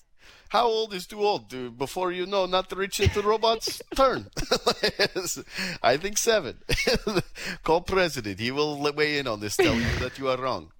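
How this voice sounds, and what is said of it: Convincing put-on foreign accent. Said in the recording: “You have a good accent, actually. Honestly, when you put an accent on the radio, I'm always impressed.”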